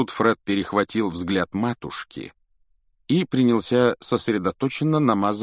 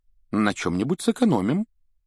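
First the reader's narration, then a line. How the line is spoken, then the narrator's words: Uncertain, worried. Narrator (Russian): неуверенно проговорила миссис Уизли, но вид у нее был явно озабоченный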